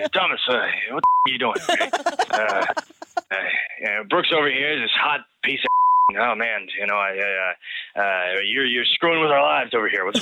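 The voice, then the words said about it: Imitates another person's voice. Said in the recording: “impression”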